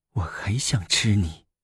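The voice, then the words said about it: Coy whisper. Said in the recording (Chinese): “娇笑着……在他耳边小声说”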